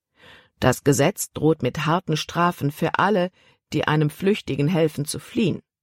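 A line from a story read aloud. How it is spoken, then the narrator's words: Plain. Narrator (German): sagte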